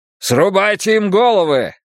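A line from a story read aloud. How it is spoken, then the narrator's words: Duke's shouted order. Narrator (Russian): крикнул герцог своим людям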